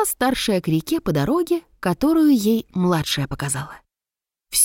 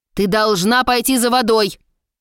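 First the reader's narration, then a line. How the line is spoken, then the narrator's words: Stern mother. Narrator (Russian): строго сказала мать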